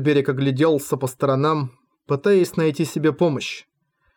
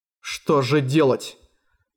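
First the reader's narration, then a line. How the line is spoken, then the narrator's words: Sullen mutter. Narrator (Russian): угрюмо пробормотал Альберик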